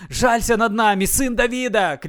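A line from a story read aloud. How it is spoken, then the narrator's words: Crowd shouting. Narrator (Russian): кричали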